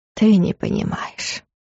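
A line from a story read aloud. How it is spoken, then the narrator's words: Gentle speech. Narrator (Russian): мягко сказал Варус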